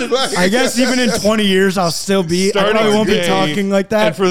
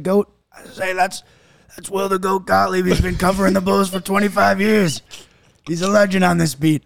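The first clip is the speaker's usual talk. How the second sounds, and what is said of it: Gravelly old man voice. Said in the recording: “your old guy Uncle Joey voice ... A lot of cigarettes and cigars ... that gravelly voice”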